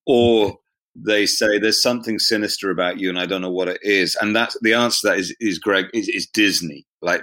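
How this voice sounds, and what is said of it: English accent. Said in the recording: “as your listeners can hear, I'm English, speaking to you from the UK right now ... this accent ... every time Disney wants to voice an evil character, they use my accent”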